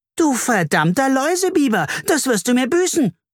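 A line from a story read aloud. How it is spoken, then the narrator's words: Screamed. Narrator (German): schrie Carla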